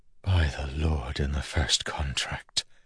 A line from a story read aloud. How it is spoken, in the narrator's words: Milan whispered